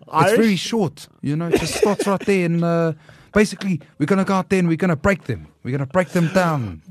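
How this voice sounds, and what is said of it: Put-on Pacific Island New Zealand accent. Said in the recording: “But you're speaking like it. But that New Zealand accent is very. ... It's a specific type of New Zealand accent. It's the Pacific Island New Zealand accent. ... it's the Maori accent.”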